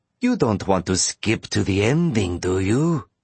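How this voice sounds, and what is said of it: Annoying mixed accent, game show host. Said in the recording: “he no longer has an Irish accent, nor does he sound like the annoying game show host ... That annoying mixed accent is back”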